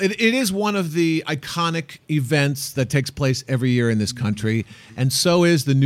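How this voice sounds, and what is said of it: Usual voice. Nothing is said of it.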